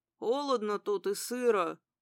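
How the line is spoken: Hoarse male voice. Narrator (Russian): хриплый мужской голос

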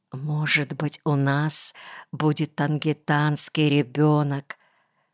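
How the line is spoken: Happy whisper. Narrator (Russian): счастливо шепнула

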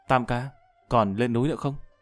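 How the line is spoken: Impatient whispered question. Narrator (Vietnamese): Tư Đức nhịn không được thì thầm hỏi

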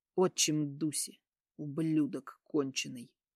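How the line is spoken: Angry hiss. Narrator (Russian): зло прошипел Тема

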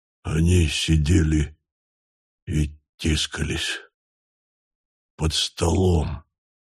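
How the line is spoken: Whispered. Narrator (Russian): прошептал он

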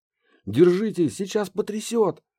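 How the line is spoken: Shouted. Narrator (Russian): крикнул Гедеон

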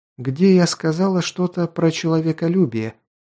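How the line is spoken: Fairly calm. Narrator (Russian): довольно спокойно сказала Луана

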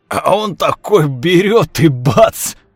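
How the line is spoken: Yelled. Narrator (Russian): орал Игорь

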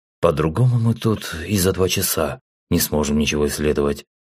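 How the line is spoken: Calm objection. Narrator (Russian): спокойно возразил

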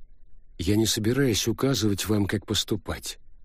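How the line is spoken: Serious. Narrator (Russian): серьезным тоном сказал Винчи

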